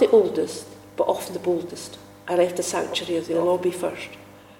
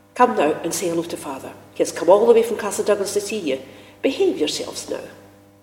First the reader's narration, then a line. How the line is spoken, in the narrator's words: Ashamed now of our behaviour, my usually placid mother called sharply